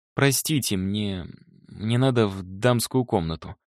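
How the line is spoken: Stammering mutter. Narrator (Russian): запинаясь, пробормотала она

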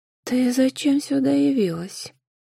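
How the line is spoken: Rustling snake-like voice. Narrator (Russian): Шелестящим голосом произнесла та, что была змеёнышем

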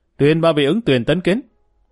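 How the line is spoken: Loud formal announcement. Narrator (Vietnamese): Mã Vinh Thành liền đứng bên cạnh hoàng hậu lớn tiếng nói

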